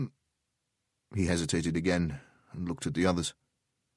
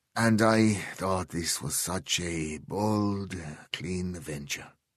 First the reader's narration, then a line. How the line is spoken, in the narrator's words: he said, his voice bitter